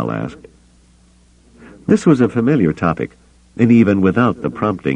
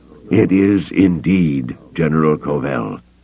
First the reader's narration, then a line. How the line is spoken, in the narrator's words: Cabauth said gravely